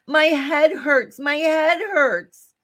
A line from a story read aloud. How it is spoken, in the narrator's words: Suddenly he cried out